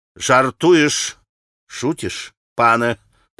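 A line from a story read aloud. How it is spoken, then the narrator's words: Stern. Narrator (Russian): проговорил маленький пан, строго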